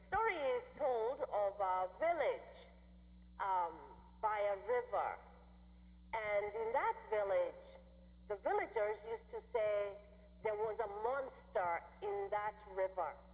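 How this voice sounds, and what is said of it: Mixed Midwestern, Swedish, Kenyan accent. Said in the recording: “my Wisconsin, Illinois, Swedish, Kenyan accent”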